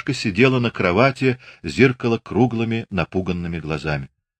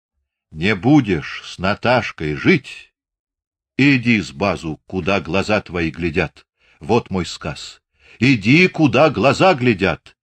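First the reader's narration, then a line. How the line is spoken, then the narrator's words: Ordinary calm voice. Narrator (Russian): повторил обычным спокойным голосом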